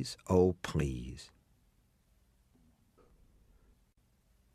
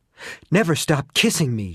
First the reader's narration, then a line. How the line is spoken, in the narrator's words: Shayna gasped